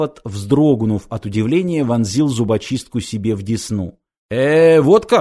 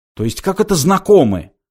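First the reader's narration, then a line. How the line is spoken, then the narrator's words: Indignant mimicking. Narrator (Russian): возмущенно передразнил Форд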